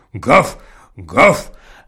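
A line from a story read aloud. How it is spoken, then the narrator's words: Deep bass dog roar. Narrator (Russian): ревел басом милорд, огромный черный пес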